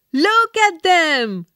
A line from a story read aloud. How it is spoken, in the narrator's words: the people shouted